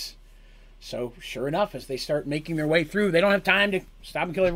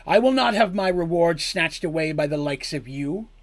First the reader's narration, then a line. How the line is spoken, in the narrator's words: Bardamus yelled again